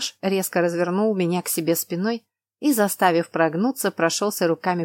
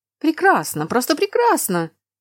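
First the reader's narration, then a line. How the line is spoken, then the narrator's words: Teacher's exclamation. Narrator (Russian): воскликнул преподаватель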